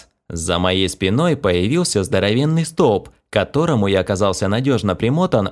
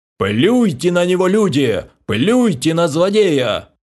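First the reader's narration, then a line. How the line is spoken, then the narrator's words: Tragic wailing. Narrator (Russian): Трагично завопил придворный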